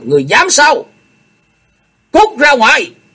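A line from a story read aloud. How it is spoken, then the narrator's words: Stern roar. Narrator (Vietnamese): Chu Lệ nghiêm nghị gầm lên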